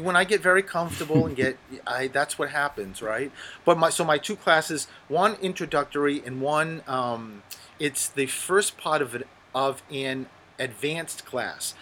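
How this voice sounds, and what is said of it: Strong Rhode Island accent. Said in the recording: “your Rhode Island accent is front and center everything you've been saying ... my accent is so bad that people can't understand me”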